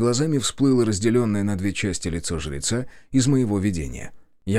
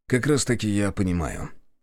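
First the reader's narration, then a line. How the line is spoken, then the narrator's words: Calm objection. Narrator (Russian): спокойно возразил я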